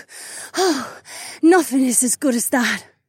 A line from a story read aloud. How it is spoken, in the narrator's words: Sienna panted